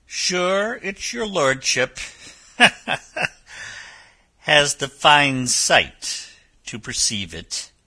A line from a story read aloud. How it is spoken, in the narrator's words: laughed